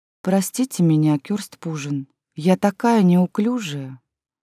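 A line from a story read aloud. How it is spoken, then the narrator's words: Flirtatious. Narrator (Russian): кокетливо сказала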